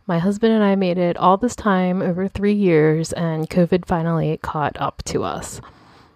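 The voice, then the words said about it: Unwell-sounding voice. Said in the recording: “I don't know if you can tell from my voice, but I'm actually getting over COVID”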